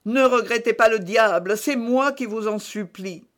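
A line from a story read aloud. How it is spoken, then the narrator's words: Priest's moaning plea. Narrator (French): reprit le curé en gémissant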